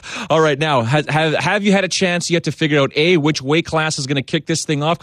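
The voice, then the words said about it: Canadian accent. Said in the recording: “I'm Canadian. ... I couldn't tell by your accent.”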